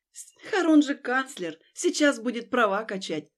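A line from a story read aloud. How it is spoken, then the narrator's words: Snorting, worried. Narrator (Russian): фыркнула я, продолжая опасаться за хрупкую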